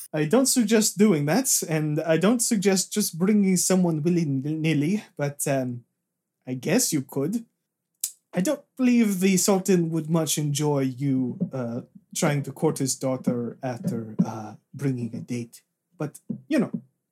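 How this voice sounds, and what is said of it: Wrong character accent. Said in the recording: “this is not the right accent. I've been talking like this the whole time.”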